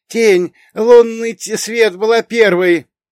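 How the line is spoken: Girl's shrill scream. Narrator (Russian): завопила девушка с розовыми волосами

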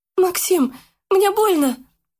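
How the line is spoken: Squeaked. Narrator (Russian): пискнула Яна

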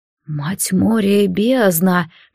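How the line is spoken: Barely moving lips, whisper. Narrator (Russian): первым прошептал Аргиан, едва шевеля губами

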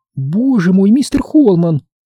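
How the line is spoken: Frightened voice. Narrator (Russian): Ее голос звучал испуганно

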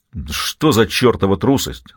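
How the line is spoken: Angry strongman. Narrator (Russian): зло спросил силач

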